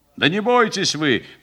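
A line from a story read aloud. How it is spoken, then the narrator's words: Shouted. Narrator (Russian): крикнул ей сержант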